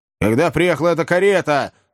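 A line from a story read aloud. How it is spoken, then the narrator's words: Shouted, old man. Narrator (Russian): закричал старик Ордль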